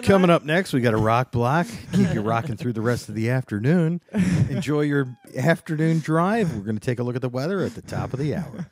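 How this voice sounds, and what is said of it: DJ-style radio announcer voice. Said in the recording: “that was a good radio voice. That was impressive. That's way better than mine.”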